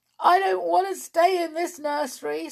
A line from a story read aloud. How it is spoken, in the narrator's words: sobbed the fairy doll